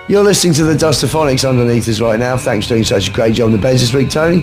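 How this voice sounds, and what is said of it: Imitates a rock and roll radio DJ. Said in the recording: “I'm with my voice like this, I do not a bad Wolfman Jack impression ... he was playing stuff on pirate US rock and roll radio ... he talks like this ... I can't help but sound a bit like him”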